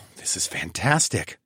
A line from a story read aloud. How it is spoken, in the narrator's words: I muttered